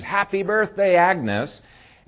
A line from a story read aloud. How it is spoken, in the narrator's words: everybody jumps up and screams